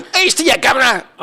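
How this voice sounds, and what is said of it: Bad inconsistent put-on accent. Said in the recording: “Dick Van Dyke is highly criticized for his accent. ... This is horrible. ... It goes in and out, right?”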